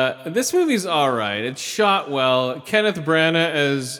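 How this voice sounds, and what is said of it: Usual voice. Nothing is said of it.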